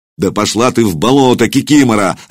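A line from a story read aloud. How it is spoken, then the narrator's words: Barked. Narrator (Russian): рявкнул он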